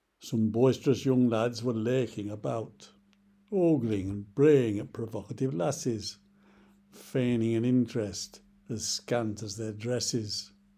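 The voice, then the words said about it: Yorkshire accent. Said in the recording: “narrated by ... in a Yorkshire accent”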